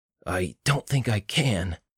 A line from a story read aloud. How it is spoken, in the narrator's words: Jonathan croaked